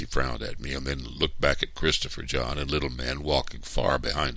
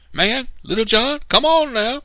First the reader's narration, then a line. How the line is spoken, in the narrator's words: yelled